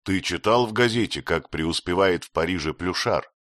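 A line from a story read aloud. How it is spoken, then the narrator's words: Plain. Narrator (Russian): спросил, наконец, Этьен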